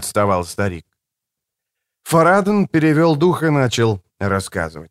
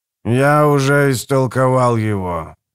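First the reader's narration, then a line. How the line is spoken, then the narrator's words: Old man, sepulchral voice. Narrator (Russian): ответил старик за могильным голосом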